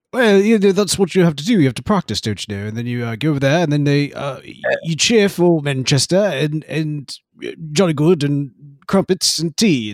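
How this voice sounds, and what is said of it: Put-on London English accent. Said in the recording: “you are bringing in the London accent”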